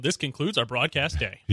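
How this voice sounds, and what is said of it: TV broadcast narrator voice. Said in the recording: “the little narrator voice at the very end would go”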